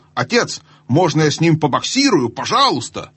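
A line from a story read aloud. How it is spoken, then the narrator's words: Eager shout. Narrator (Russian): Корин крикнул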